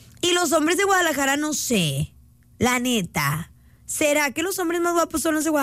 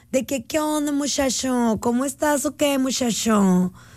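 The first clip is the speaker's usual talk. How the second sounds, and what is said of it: Imitated Chihuahua Mexican accent. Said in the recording (Spanish): “Un acento rico es el de Chihuahua.”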